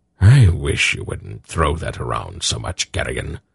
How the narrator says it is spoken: Belgarath said in a pained tone

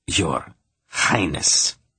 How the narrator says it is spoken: he snarled from between clenched teeth

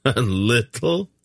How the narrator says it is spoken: Garion laughed

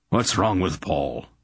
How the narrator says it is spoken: he demanded harshly

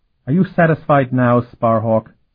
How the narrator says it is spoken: he demanded a bit sullenly

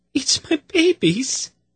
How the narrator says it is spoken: she said in a choked voice

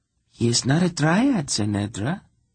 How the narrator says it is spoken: Zira replied calmly

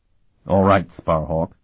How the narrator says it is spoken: the abbot replied a bit stiffly

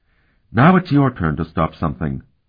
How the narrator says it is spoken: she said firmly

